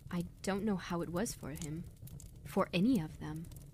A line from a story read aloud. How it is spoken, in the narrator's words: she said, her voice tremulous and soft